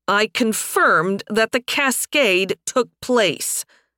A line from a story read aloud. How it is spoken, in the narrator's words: Fias growled